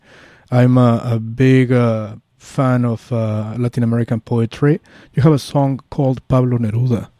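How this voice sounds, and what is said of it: Mexican Spanish accent. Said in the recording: “maybe you noticed my accent. I'm from Mexico City.”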